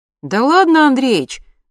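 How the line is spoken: Cheerful reply. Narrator (Russian): бодро ответил Лёня

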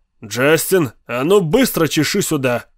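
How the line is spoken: Barked. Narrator (Russian): рявкнул он

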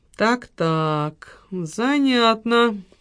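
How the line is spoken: Muttering. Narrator (Russian): пробормотал Роберт

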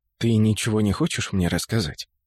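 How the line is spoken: Whisper. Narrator (Russian): шепнул он

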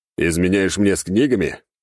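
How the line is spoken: Laughing chuckle. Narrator (Russian): хохотнул я

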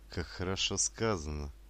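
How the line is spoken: Halting sigh. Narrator (Russian): прерывисто вздохнула Атта

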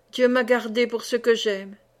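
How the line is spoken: Murmur. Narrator (French): murmura-t-elle

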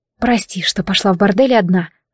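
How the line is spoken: Muttering. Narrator (Russian): пробормотала я

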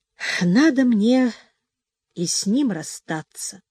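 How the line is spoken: Deep sigh, then speaking. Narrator (Russian): глубоко вздохнув, проговорила она

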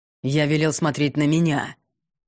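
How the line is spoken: Growled nearby. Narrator (Russian): Рыкнули рядом

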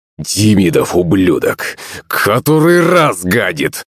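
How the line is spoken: Angry growl. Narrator (Russian): зарычал батя

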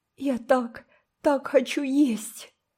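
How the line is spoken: Sobbing. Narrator (Russian): прорыдала Мэри

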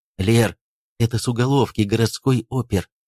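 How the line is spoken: Hurried whisper. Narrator (Russian): Паренек торопливо прошептал ей

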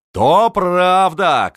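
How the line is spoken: Shouting. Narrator (Russian): кричал

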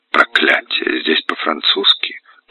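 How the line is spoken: Muttering. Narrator (Russian): пробормотал граф

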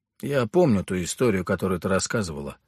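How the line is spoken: Gloomy. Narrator (Russian): мрачно проговорил я

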